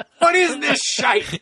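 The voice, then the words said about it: Bad put-on Irish accent. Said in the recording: “That was a really horrible Irish accent ... horrible”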